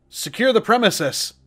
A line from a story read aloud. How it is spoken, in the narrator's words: I heard a man say loudly, his echoing voice muffled through the door